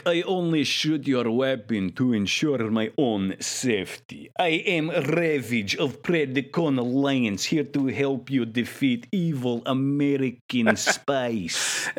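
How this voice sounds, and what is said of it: Thick put-on Russian accent. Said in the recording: “crazy, thick, like, Rocky IV thick Russian accent ... KGB assassin voice”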